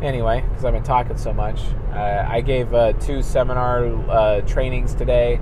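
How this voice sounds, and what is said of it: Hoarse, fading voice. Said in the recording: “I'm kind of losing my voice right now ... my voice is just going away”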